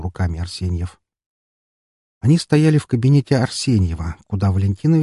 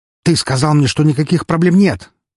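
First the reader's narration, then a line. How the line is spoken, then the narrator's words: Angry bark. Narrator (Russian): рявкнул Евгений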